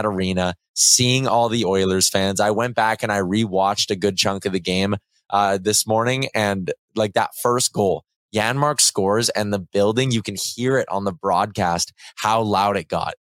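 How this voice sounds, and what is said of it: Raspy hoarse voice. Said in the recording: “my voice is so raspy.”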